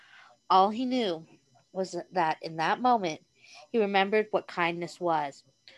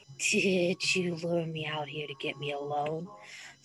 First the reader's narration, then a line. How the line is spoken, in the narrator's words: muttered against ardent, so soft lips